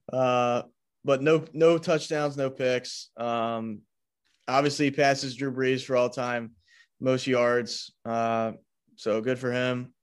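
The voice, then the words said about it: Flat, unexcited deadpan delivery. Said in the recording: “sound any more excited there? ... my best Belichick impression, just barely”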